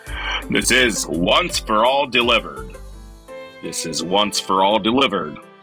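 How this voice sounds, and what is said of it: Announcer radio voice. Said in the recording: “Should I use a radio voice?”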